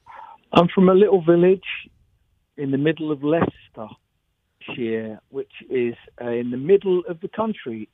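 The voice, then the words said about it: English accent. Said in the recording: “You have that lovely English accent.”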